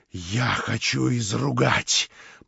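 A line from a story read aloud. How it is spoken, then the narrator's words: Muttered. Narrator (Russian): пробормотал Кириллов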